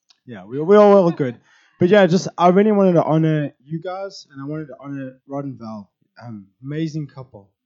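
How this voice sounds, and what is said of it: Unusually low, strained voice. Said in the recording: “my voice is way down low in the register. I'm just struggling”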